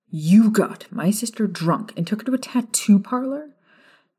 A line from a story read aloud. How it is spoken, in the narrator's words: James snapped